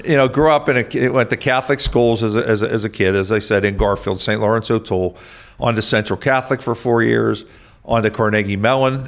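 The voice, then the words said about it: Pittsburgh accent. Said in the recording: “I'm a Pittsburgher. You don't get this accent without not working on it for 60 years.”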